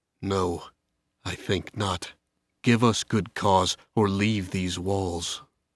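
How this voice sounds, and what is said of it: Cold voice. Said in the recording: “in a cold voice”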